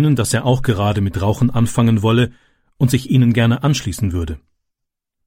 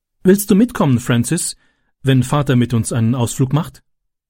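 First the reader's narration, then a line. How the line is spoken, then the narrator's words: Plain question. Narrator (German): fragte sie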